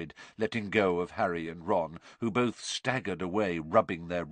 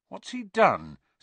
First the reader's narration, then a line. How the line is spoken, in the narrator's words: said Harry nervously